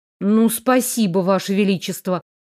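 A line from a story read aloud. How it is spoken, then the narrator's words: Muttered with clear annoyance. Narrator (Russian): пробурчала я с явной досадой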